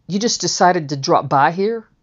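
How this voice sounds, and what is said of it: New York accent. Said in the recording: “In that New York accent.”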